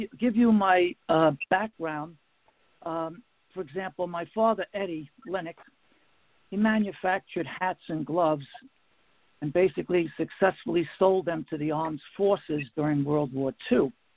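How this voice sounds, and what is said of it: Bronx New York accent. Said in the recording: “I grew up in the Bronx, New York. You can tell from my funny accent.”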